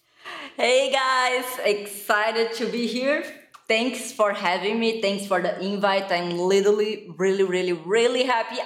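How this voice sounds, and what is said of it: Brazilian accent. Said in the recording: “I am from Brazil, so my accent is kind of super weird ... So it's Brazil.”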